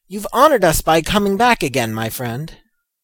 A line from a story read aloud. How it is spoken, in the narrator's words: cried across the barrier to Jude